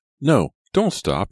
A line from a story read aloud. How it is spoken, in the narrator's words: he cried